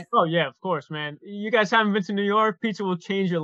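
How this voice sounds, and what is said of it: New York accent. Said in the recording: “He's a New York Knick guy. We can hear the accent in his voice.”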